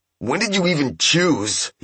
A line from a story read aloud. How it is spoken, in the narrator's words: He cried more angrily than he intended